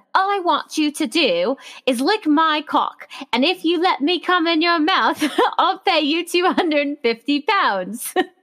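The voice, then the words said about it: Put-on British accent. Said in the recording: “I'm going to do it in a British accent because it's going to sound better.”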